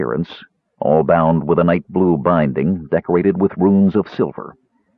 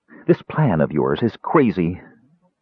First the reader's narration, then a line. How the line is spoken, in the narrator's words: she told Raistlin, irritably